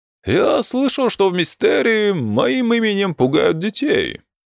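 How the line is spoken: Sad, smiling. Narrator (Russian): печально улыбнулся Сабригон

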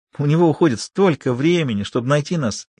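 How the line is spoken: Giggling. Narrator (Russian): хихикнула Лулу

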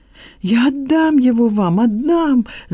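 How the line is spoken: Shouted. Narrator (Russian): закричала Лиза

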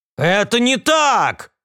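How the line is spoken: Shouting. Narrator (Russian): закричал капитан

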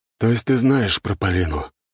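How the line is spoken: Heavy sigh, threatening tone. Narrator (Russian): тяжело вздохнул князь воды, и его голос обрел угрожающие нотки

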